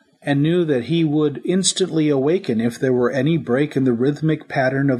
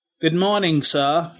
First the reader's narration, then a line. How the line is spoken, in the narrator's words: he grunted